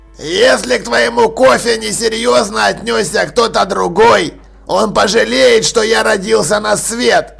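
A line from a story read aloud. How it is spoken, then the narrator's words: Growled. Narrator (Russian): прорычал Джекрам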